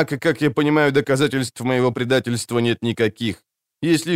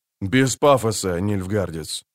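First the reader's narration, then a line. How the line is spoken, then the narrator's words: Gruff grumble. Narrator (Russian): буркнул Геральт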